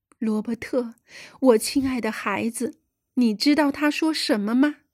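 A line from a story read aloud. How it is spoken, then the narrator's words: Emotional, choked voice. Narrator (Chinese): 格雷纳凡用激动的、有些哽咽的声音对罗伯特说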